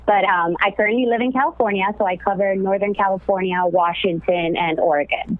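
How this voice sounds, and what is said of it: Miami accent. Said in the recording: “originally from Miami, as a lot of you may know, or maybe can tell from my accent.”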